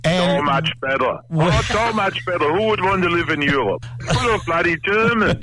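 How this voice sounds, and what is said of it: Slight German accent. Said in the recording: “has a little accent there ... your accent. ... Germany. ... Down south, Swabian”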